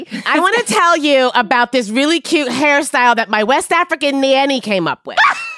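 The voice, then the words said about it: Put-on Midwestern accent, bit Brooklyn. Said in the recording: “I don't know if I did the Midwestern accent right ... It was a little Brooklyn, but it's okay ... you got the bend on the vowel there.”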